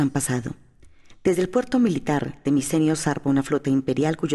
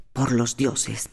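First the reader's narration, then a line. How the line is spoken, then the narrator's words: Muttered to himself. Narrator (Spanish): murmuró para sí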